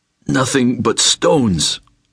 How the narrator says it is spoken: Nikolai rasped, cursing the man

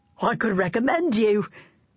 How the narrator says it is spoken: one of his friends howled with laughter

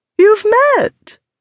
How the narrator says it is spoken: Lady Portmeadow cried

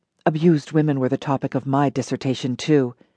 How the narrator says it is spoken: Lisa whispered

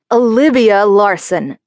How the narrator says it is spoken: scolded in his best dad voice

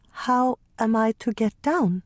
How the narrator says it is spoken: she asked

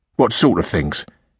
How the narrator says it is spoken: interrupted Flash Jim harshly

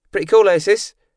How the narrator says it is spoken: Jake yelled

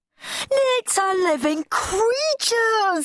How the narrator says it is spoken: howled Henry

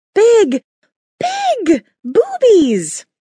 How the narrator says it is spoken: She shrieked

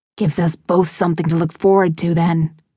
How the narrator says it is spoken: he hissed

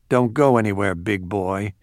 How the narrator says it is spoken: she murmured

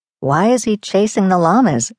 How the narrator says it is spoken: I asked

